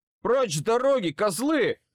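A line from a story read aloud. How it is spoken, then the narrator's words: Yelling. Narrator (Russian): заорал я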